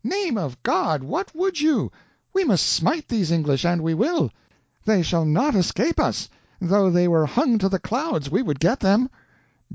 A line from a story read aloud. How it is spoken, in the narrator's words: cried out impetuously